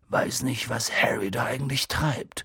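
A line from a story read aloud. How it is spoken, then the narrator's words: Murmuring. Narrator (German): murmelte Hagrid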